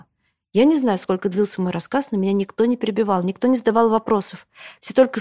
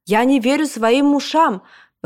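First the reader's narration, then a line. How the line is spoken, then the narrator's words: Exclaimed. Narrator (Russian): воскликнул Жан-Пьер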